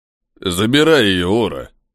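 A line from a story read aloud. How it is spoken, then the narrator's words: Deep bass voice. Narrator (Russian): пробасил один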